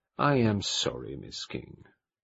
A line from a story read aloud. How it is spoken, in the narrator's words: Gerard said gently